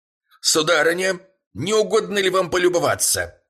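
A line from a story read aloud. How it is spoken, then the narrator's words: Shout. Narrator (Russian): прокричал он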